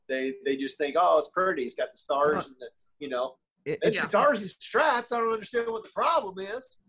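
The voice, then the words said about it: Put-on Mississippi Southern accent. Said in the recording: “my Mississippi accent I just did then ... That was pretty good, actually.”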